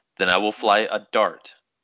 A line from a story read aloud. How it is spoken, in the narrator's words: said